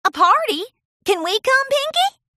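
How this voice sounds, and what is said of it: Young filly with cowgirl accent. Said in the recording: “said Apple Bloom in her cowgirl accent, jumping up and down like a baby lamb”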